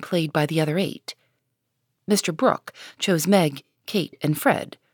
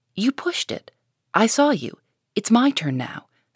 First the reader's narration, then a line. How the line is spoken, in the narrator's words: said Joe sharply